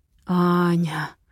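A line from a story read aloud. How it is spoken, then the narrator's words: Hoarse moan. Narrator (Russian): хрипло стонет Матвей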